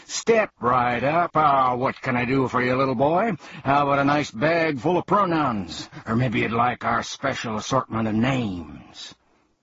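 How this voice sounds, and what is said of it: Booming salesman character voice. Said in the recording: “announced one man in a booming voice”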